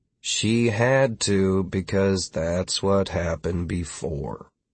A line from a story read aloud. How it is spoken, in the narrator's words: Pretty much everyone but Philip mumbled